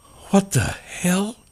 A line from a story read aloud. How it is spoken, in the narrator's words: muttered